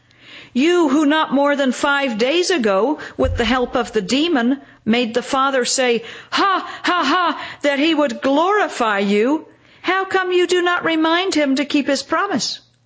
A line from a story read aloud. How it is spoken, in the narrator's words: a group of Judeans shout